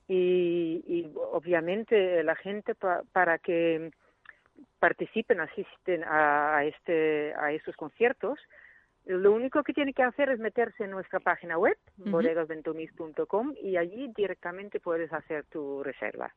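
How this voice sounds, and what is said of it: Mixed Dutch and Andalusian accent. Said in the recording (Spanish): “tu acento, bueno, pues medio holandés, medio andaluz. De vez en cuando te sale el deje.”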